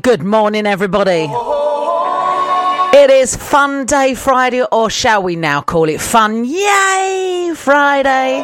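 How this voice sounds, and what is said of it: Noticeable regional accent. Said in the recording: “Sorry for the accent.”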